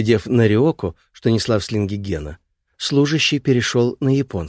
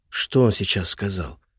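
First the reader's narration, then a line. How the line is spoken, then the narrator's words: Whispered in ear. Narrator (Russian): шепнул ей на ухо Эрик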